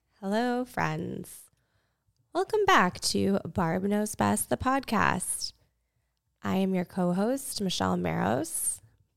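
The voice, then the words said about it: Slightly raspy, hoarse voice. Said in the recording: “I'm on the tail end of a cold, so I'm extremely sorry if my voice sounds a little off... It's a little raspy.”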